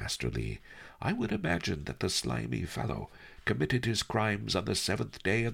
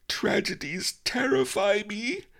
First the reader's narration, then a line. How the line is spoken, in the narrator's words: the Key Rabbit wailed